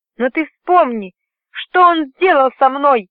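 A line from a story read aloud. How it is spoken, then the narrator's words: Exclaimed. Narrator (Russian): воскликнула Корлис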